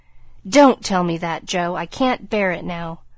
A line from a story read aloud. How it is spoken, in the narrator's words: cried out in a fierce tone